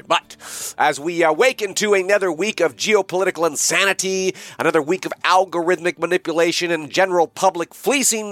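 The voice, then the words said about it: Sick, under-the-weather voice. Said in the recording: “as you can no doubt tell by my voice, I am under the weather today... If I end up hacking”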